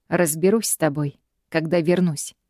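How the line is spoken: Threatening tone. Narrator (Russian): Угрожающим тоном бросает мне Гай

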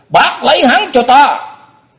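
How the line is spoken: Stern call. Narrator (Vietnamese): Trương Bính mới hồi phục lại tinh thần, y nghiêm giọng kêu lên

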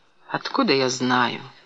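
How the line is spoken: Flat lifeless question. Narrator (Russian): спросила тем же ровным, безжизненным голосом

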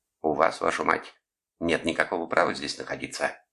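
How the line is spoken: Hissed. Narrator (Russian): прошипел он

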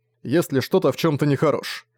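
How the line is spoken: Snort. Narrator (Russian): фыркнул Зориан

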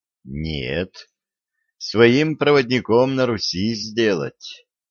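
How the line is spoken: Dejected sigh. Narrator (Russian): удрученно вздохнула девушка

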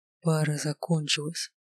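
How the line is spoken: Whisper in the ear. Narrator (Russian): прошептал мне на ухо

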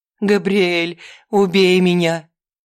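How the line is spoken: Tearless sobbing. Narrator (Russian): Она рыдала

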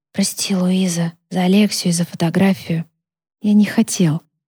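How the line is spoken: Whisper. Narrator (Russian): Наконец он прошептал

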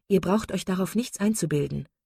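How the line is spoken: Plain. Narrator (German): sagte Elinor

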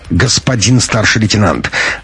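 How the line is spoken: Sharp interruption. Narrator (Russian): резко перебила Пущина и Раида

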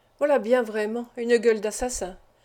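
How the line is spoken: Murmured. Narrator (French): murmura-t-il

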